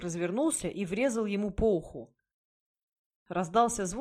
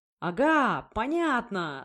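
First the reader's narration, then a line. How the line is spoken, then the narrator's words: Yelled. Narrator (Russian): завопил святой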